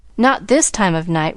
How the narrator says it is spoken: Rebecca answered

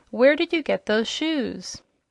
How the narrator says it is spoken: he continued more gently

